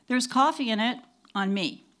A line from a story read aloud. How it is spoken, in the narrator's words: Mitchell shouted over the din of our old-time moviolas